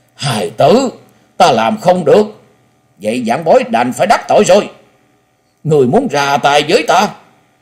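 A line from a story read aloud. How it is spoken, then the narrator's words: Loud, deeply agitated. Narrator (Vietnamese): Quái nhân che mặt thân hình run rẩy, cho thấy nội tâm của hắn vô cùng kích động, lớn tiếng nói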